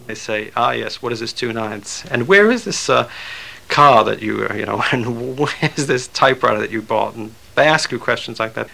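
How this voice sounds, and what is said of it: Hard-to-place, slightly British-sounding accent. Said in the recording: “Theroux's accent, by the way, is hard to define. It sounds a little British, but not exactly. ... So I think I probably have a West Indian accent.”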